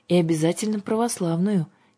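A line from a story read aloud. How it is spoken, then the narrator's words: Quiet. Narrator (Russian): тихо добавила Аннушка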